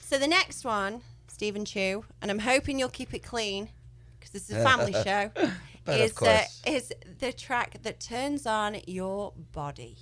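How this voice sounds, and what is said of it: English accent. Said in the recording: “I like the way you say that in your English accent.”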